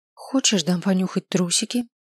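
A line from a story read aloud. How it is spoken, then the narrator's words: Heartfelt questioning tone. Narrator (Russian): Спросил я его столь же проникновенным тоном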